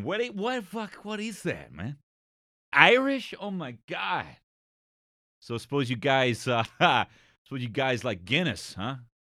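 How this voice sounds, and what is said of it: Put-on American accent. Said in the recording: “If you're chatting to an American in a youth hostel.”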